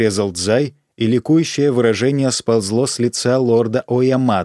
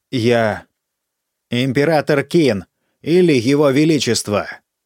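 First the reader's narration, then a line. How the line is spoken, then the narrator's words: Child's bark. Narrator (Russian): рявкнул мальчик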